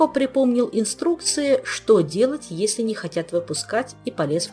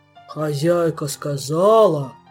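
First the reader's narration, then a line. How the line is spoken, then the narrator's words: Monotone deep bass. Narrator (Russian): монотонно пробасил он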